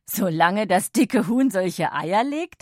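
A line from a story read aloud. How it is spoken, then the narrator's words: Laughing father. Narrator (German): lachte Lauris Papa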